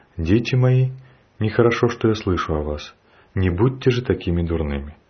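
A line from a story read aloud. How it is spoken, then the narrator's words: Very gentle. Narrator (Russian): Он очень ласково сказал им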